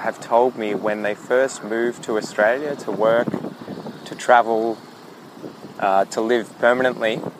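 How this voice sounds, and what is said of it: Soft Australian accent. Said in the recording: “I'm not too bad. I consider my accent to be pretty soft. It's not overly strong”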